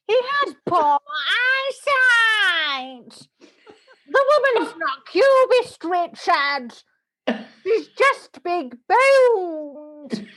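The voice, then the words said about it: Patricia Routledge impression. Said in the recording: “I'll do an impression of Patricia Routledge at an art gallery”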